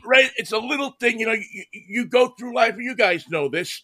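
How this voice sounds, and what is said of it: New York accent. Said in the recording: “coming from New York ... I kept the accent”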